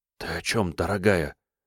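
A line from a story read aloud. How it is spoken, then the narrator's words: Whisper. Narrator (Russian): прошептал Ник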